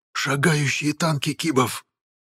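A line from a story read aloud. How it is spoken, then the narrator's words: Choked frightened whisper. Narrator (Russian): В сдавленном шепоте молодого морфа прозвучал неподдельный страх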